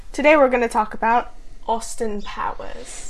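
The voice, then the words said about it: Put-on British or Australian accent. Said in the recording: “your British accent ... I don't even know what accent it was ... It's probably more like Australian?”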